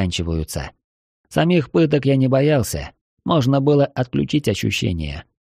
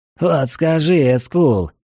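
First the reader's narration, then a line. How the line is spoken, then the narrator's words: Wheezy voice after coughing. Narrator (Russian): просипела, откашлившись, Эраин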